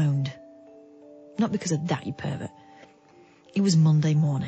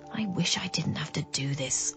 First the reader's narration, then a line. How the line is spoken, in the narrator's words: I muttered to myself